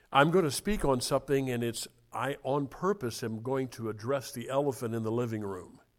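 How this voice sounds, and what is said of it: Voice in poor condition. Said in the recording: “My voice is not good. ... if it's not up to snuff this morning”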